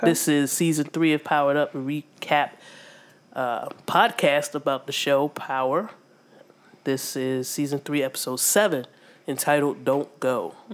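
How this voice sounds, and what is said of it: Congested, more nasal voice than usual. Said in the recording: “I am suffering with sinus issues, so my voice is more nasally than usual ... than normal”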